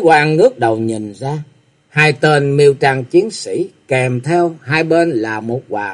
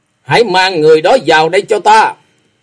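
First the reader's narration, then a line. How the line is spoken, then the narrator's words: Loud shout. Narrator (Vietnamese): lớn tiếng quát rằng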